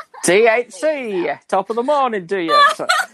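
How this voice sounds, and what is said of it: Put-on British accent. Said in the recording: “that cool Liverpudlian accent ... smooth-sounding British guy”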